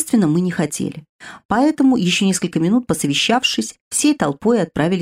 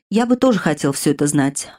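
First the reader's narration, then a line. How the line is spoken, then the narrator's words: Sighing. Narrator (Russian): вздохнув, проговорил блондин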